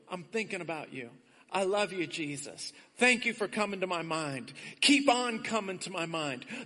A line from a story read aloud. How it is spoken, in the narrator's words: Just whisper to the Lord